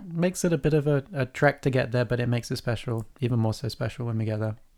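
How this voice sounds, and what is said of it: English accent. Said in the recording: “we do have different accents ... I am from the Midwest and ... is from England.”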